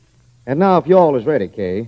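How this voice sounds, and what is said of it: Put-on Southern accent. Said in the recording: “my southern accent”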